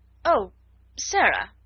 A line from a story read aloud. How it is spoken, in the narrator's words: she exclaimed, endeavouring to produce a suitable smile